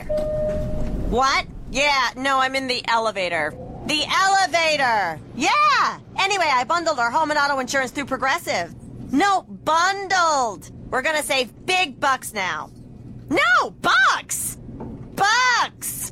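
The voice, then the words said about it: Loud shouting phone-call voice. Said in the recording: “my impression of a person having a phone conversation in the elevator”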